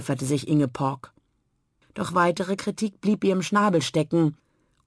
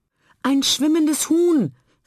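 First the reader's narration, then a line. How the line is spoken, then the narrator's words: Called out, moorhen. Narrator (German): rief Egakarina, ein Teichhuhn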